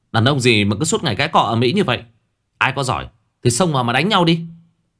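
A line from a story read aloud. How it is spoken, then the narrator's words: Yelling. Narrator (Vietnamese): Số 4 quát tháo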